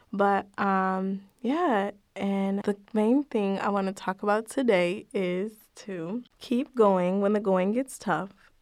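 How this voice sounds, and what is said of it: Slightly raspy, fading voice. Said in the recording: “excuse my voice because I'm a little raspy... my voice is leaving me”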